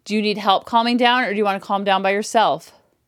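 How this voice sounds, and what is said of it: Strong, assertive voice, not yelling. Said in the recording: “Using this strong voice. See how strong my voice is? I'm not screaming. I'm not yelling. I'm not whining. I'm not borderline crying. I'm using that strong, assertive pack leader energy”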